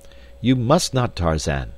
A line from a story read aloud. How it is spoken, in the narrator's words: cried D'Arnot